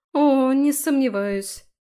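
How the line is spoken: Forced out. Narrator (Russian): выдавила Аби

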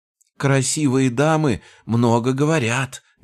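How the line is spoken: Squealing. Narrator (Russian): визжал он

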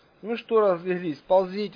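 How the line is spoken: Mocking suggestion. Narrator (Russian): насмешливо предложил

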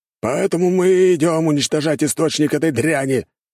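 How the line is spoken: Growled. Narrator (Russian): рыкнул командир

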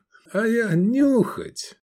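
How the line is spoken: Laughing. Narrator (Russian): Рассмеявшись, Адриан

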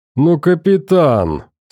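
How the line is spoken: Yelling through laughter. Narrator (Russian): сквозь смех орал Фрол

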